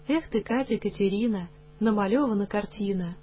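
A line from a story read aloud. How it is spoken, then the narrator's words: Gentle murmuring. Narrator (Russian): Угрюмый буфетчик ласково приговаривал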